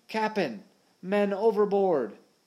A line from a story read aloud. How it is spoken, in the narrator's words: Smee was shouting